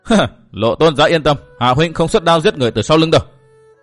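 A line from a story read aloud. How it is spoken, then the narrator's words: Laughing. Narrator (Vietnamese): Thành Tường không nén được bật cười nói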